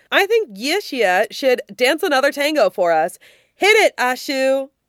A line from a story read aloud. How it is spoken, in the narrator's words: Wang Kaxing hollers above the noise